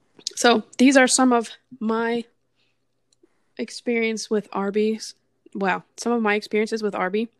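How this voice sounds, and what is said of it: Slightly hoarse, strained voice. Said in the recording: “I'm losing my voice a little bit because I've been talking all day”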